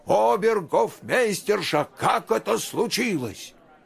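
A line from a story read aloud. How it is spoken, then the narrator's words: Angry king's loud shout. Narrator (Russian): Разгневанный король громко закричал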